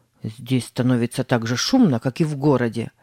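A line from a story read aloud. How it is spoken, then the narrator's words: Grumble. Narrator (Russian): проворчал Тим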